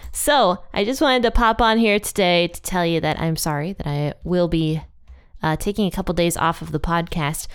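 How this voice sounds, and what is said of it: Sick, strained voice. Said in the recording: “You might be able to hear it in my voice, but I am very sick and my throat is absolutely killing me”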